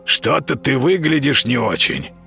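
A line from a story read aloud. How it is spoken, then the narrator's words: Hoarse cat's rasp. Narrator (Russian): прохрипел кот с порога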